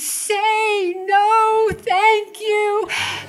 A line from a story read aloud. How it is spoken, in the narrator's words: the voice was pleading